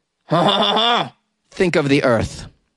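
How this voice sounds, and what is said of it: Put-on French accent. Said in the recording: “That's how I do my French accent.”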